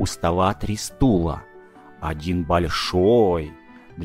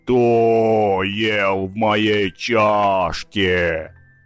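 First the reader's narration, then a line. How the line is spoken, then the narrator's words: Growling. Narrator (Russian): Настасья Петровна зарычала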